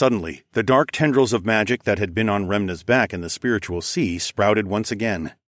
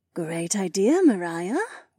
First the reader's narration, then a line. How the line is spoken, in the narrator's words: Remna purred